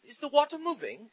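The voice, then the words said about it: Poor put-on British accent. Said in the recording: “Sorry, that's a really bad British accent.”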